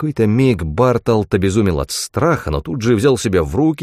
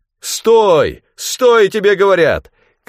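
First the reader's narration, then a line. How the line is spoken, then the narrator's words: Stranger shouting. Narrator (Russian): кричал незнакомец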